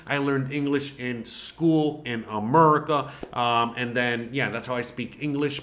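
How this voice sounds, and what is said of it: Spanish-accented English. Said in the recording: “my first language is Spanish ... that's why I have an accent”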